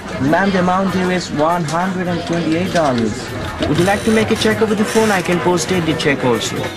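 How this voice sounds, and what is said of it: Indian-accented English. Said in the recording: “their Indian accents ... What is this funny accent?”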